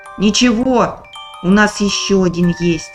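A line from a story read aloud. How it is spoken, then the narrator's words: Plain, old man. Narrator (Russian): сказал дед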